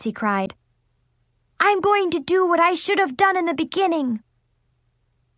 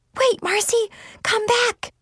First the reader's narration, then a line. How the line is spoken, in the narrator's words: I whisper shouted